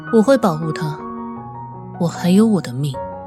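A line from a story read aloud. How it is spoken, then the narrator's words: Cold, flat. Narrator (Chinese): 雅静……声音依然冷淡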